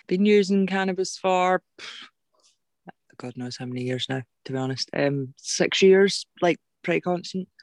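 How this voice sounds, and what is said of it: Glaswegian Scottish accent. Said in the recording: “I do have a Glaswegian accent because I did stay in Glasgow for 13 years.”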